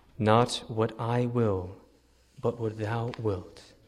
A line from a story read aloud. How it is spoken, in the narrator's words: he says